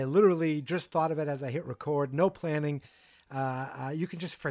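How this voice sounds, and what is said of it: Usual voice. Nothing is said of it.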